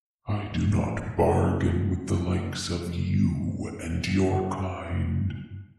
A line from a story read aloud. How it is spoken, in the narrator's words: he growled at her